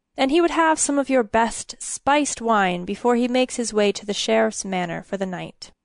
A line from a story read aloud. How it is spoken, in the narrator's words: Uther said in a clear voice